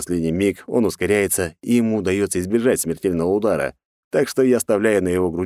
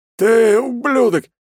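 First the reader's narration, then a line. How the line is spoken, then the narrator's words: Hoarse rasp. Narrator (Russian): хрипит он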